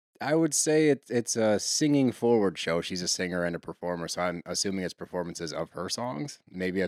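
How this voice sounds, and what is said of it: Usual voice. Nothing is said of it.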